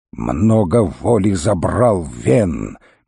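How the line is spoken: Angry growling man. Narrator (Russian): багровее лицом зарычал мужчина

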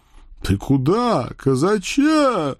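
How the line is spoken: Booming. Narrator (Russian): прогудел мясник Павлушечка

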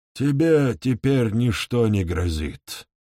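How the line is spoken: Plain. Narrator (Russian): ответил следопыт

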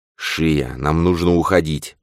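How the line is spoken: Whispered. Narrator (Russian): прошептал тот

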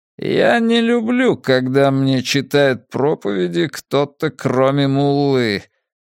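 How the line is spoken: Tight-lipped clipped words. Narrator (Russian): процедил Аль-Хал, сжав рот в тонкую линию

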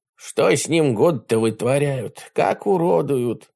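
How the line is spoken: Sympathetic sigh, grey-haired helmsman. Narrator (Russian): сочувственно вздохнул седой кормщик семейка

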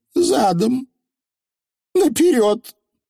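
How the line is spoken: Weak voice. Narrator (Russian): повторила Анаграмма слабым голосом

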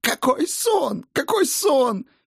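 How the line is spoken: Furious sob, female. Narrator (Russian): Яростно всхлипнула альвийка

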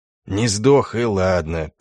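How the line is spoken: Grumbling. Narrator (Russian): проворчал альбинос

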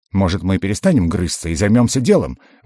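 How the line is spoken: Rapid chatter. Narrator (Russian): вновь затараторил Рыжий

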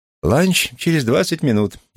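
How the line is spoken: Cheerful. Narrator (Russian): весело произнес я

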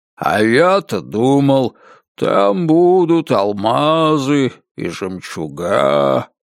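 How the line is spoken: Drawl. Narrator (Russian): протянул он

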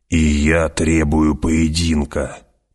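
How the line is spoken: Growling. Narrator (Russian): прорычал Джамис

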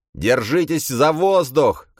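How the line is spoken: Shout. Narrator (Russian): крикнул Дарант

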